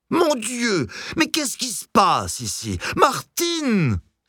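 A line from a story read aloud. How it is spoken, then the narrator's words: Alarmed exclamation. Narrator (French): s'écria en trottinant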